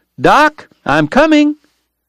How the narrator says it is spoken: he heard Eddie Foy shout

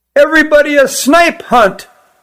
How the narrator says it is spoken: yelled one

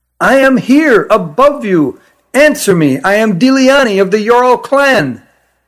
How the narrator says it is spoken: she placed her mouth to the opening and shouted as loudly as she could

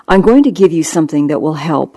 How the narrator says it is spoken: I said

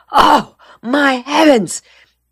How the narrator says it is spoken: Delastreet exclaimed, suddenly remembering

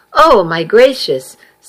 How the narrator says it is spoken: someone exclaimed from the doorway

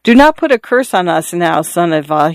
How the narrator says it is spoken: said timidly

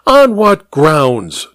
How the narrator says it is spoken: Diana blurted at him

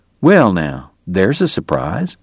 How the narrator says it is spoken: Doc murmured

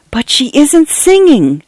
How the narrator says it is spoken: Cynthia whispered in shock and horror, discovering another instance of the world's corruption

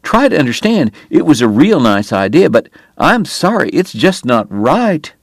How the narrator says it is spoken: Wyatt pleaded

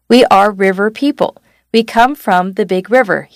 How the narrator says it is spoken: he said

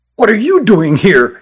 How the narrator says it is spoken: asked Christopher angrily

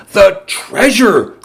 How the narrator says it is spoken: cried Salvador

